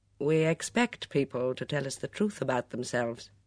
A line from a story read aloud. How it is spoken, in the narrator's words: Craddock said dryly